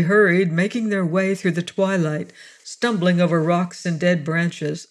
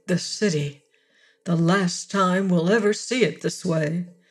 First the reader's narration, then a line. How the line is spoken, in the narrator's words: he murmured